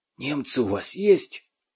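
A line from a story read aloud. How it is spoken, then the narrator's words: Quiet. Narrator (Russian): Семен тихо сказал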